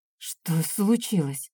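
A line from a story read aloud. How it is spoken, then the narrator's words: Quiet, slightly trembling. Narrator (Russian): тихо спросила я, чуть с дрожащим голосом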